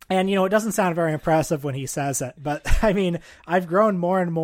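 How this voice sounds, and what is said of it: Usual voice. Nothing is said of it.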